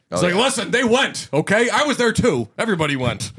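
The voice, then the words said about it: Imitates another person's voice. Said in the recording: “That's my Sam Elliott impression.”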